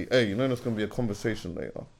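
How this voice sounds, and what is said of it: Quiet, hushed delivery. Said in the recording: “just say it quietly.”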